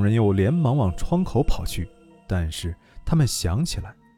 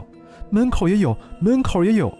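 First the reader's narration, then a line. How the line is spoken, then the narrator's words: Sudden loud shout. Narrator (Chinese): 忽然，靠在门口的人一声大叫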